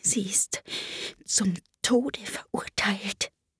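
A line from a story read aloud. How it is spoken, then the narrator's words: Fearful whisper in ear. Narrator (German): Es sah dabei ängstlich über seine Schulter, hielt den Mund dicht an Alices Ohr und wisperte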